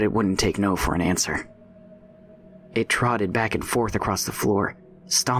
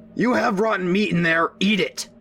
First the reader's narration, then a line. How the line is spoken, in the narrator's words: not really knowing what to do with it now, shouted back